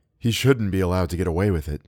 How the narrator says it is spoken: Theodora said

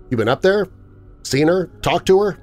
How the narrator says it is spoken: I stammered that out after I found my voice

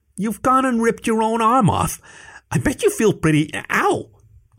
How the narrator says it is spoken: Joshua squeaked with a paw over his eye

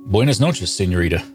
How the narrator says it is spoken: stammered out in my very un-Spanish Hoosier accent

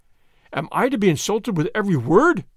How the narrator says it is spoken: he cried

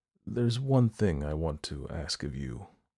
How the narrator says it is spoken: I said quietly

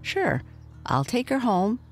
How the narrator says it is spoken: said Mike kindly

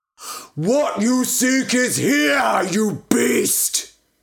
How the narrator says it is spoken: He bellowed

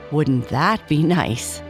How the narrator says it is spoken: mother laughed

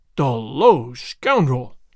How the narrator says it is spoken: the governor exclaimed

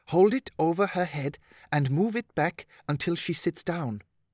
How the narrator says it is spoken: whispered Stephanie

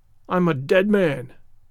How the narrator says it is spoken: groaned the ranger

